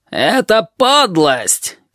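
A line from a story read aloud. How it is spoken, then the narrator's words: Shouting over crowd. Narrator (Russian): крикнул стервятник, перекрывая возбужденный гул голосов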